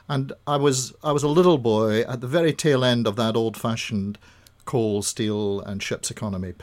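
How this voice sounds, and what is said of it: Scottish accent. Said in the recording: “obviously from your accent, it didn't all start in Dorset ... Born in central Scotland”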